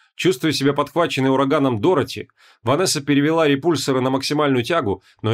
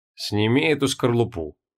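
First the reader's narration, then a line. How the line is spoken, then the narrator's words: Cold. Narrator (Russian): холодно произнес Трой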